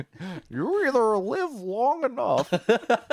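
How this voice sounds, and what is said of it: Poor impression of Bane's voice. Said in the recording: “terrible Bane impression”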